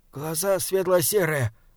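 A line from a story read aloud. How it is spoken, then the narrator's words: Mutter. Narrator (Russian): бормотал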